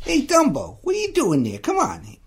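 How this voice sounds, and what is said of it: New York accent, Timothy Mouse impression. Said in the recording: “kind of like a New York version of Jiminy Cricket... I loved his accent.”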